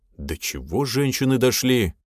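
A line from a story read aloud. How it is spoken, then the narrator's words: Grumble. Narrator (Russian): проворчал он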